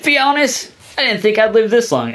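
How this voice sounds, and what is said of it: Weak attempt at Australian accent. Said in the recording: “I can't do a good Australian accent”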